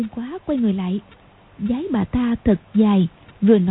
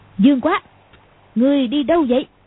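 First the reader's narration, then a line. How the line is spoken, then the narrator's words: Sudden loud shout. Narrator (Vietnamese): Cầu Thiên Xích đột nhiên quát to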